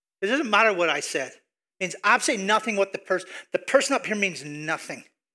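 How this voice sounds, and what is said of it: Speaker with a distinctive accent. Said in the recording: “crazy dude with a funky accent”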